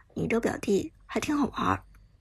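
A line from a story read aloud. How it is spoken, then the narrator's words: Low voice, slight smile. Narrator (Chinese): 苏哲则微微一笑，低声道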